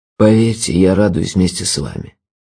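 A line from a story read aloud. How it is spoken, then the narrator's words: Tired. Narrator (Russian): сказал он устало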